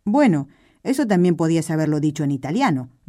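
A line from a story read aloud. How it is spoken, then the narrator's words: Grumbling younger man. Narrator (Spanish): refunfuñó el más joven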